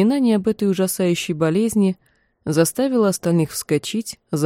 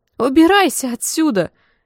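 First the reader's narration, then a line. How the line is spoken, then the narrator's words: Shrieking. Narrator (Russian): визжал другой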